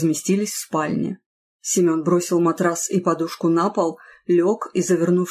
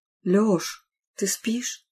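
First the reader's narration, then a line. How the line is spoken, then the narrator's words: Quiet question. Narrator (Russian): Юля тихо спросила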